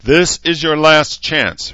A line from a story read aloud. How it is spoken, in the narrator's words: Herzer yelled